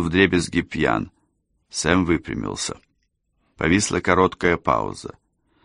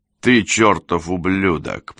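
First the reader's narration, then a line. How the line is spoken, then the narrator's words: Recorded angry growl. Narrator (Russian): прорычал на пленке Эндрюс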